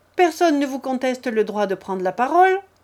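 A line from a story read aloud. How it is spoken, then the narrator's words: Curt interruption, hostess. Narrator (French): interrompit sèchement la maîtresse de la maison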